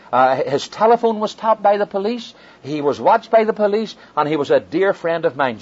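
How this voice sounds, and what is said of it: Irish accent. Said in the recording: “You have an Irish accent.”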